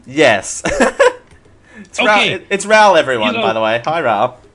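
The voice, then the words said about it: Speaks with an accent. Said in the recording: “It's my accent.”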